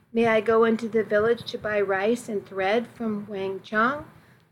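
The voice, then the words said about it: Meek, timid voice. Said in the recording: “in my meekest voice”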